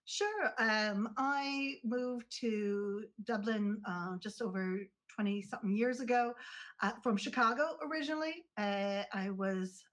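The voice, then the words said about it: American accent. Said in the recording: “has an accent here”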